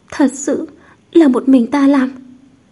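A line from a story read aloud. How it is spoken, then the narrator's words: Trembling voice. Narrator (Vietnamese): Thẩm Chân giọng run rẩy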